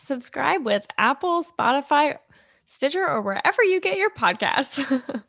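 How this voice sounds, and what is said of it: Imitates a voice assistant. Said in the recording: “put on my Siri voice”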